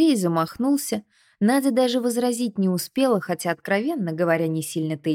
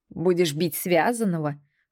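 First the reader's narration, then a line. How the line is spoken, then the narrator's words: Snorting. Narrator (Russian): фыркнул Баум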